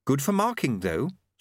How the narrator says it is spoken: said Susan calmly

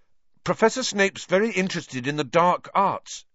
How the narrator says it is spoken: he blurted out

